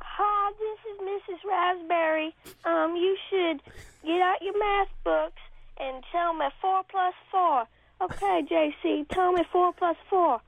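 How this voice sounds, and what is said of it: Kid impersonating a teacher. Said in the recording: “I'm going to be impersonating Kelly Raspberry.”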